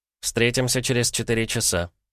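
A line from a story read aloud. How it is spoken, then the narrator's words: Muttered. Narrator (Russian): буркнул посредник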